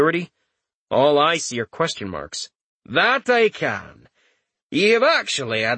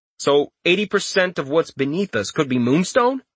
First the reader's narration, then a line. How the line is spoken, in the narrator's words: He asked excitedly